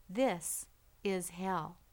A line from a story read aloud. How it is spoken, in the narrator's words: the old man said in a calm voice